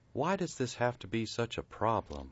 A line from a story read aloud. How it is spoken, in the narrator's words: Buzz sighed